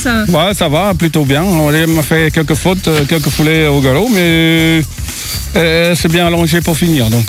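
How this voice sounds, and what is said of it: Slight Dutch accent in French. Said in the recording (French): “Ce petit accent vient d'où? ... Vous avez un petit accent? ... J'étais prêt à dire belge, et puis non, c'est hollandais.”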